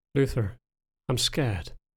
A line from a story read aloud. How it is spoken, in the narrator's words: spoke softly, tremble in her voice